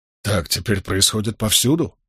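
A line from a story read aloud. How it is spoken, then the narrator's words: Muttered. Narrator (Russian): пробормотал Болейн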